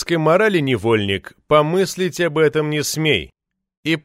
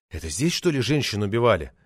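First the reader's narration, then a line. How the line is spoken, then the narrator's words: Curious asking. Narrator (Russian): зеваки, чаще иногородние, даже спрашивали у постового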